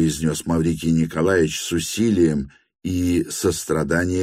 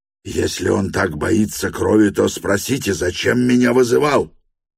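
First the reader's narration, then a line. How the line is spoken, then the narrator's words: Screaming. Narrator (Russian): вопил Гаганов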